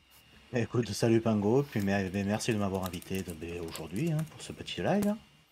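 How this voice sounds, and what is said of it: Southwestern French accent. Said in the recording (French): “l'accent du, sud-ouest euh, est avec nous.”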